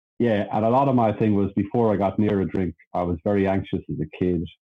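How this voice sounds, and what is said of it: Irish accent. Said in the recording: “I'm Irish, by the way. I was born in Ireland... Not an Australian accent.”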